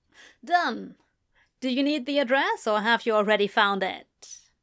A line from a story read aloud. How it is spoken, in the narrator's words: she asked